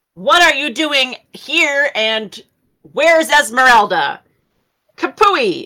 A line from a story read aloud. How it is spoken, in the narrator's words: I'm going to yell